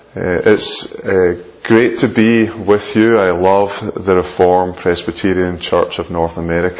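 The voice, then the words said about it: Noticeable non-local accent. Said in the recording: “let you acclimatise to my accent”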